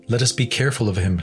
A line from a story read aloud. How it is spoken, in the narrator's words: said Hopeful